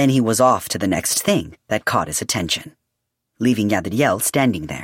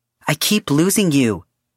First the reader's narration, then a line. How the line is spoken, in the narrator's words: he shouted